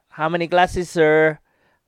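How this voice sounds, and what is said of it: Put-on Filipino accent. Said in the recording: “That's my Philippine accent, ... my Philippine trade. ... It's starting to sound less Indian”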